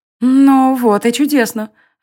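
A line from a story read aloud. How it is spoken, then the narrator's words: Exclaiming. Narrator (Russian): воскликнула Алиста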